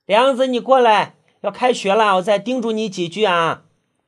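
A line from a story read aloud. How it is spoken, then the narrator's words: Mother calling from indoors. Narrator (Chinese): 他妈妈就在屋里喊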